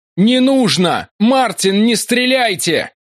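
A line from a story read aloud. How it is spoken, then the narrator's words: Shout. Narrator (Russian): закричал я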